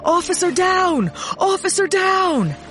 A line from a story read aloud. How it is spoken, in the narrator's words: yelled into it